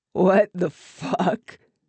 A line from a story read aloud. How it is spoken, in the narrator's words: Porter said, laughing